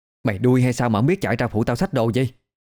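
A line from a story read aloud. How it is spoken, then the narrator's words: Irritated shout. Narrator (Vietnamese): Tuyền đã quát, giọng bực bội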